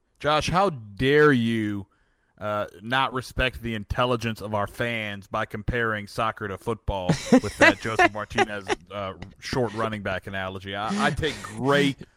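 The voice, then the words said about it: Indignant hipster soccer fan impression. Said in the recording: “that was my impersonation of the hipster who gets mad when you try to compare soccer to football”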